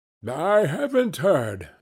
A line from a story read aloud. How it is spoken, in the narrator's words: said the man with the large chin, yawning again